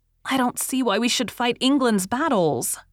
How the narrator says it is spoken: cried Rilla

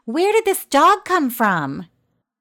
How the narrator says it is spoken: The little man yelled in his high-pitched, crackly voice

